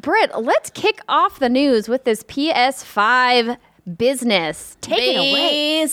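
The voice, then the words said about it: Strange put-on accent. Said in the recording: “what the hell kind of accent was that?”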